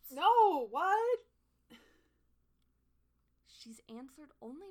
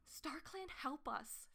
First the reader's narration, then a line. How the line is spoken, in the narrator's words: Feathertail gasped